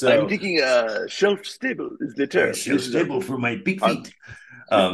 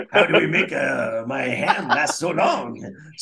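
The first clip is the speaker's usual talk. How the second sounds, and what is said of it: Put-on mock French accent. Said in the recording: “these that was my French. It's also it, it, also my Jamaican and Irish accent.”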